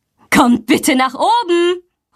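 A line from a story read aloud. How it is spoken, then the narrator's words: Calling. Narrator (German): ruft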